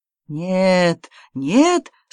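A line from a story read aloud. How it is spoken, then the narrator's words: Moaning. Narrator (Russian): стонал Август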